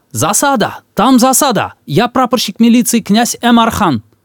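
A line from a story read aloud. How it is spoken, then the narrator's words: Shouting from afar. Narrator (Russian): Он издали закричал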